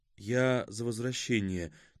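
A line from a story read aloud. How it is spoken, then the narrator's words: Quiet. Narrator (Russian): тихо проговорила Зарима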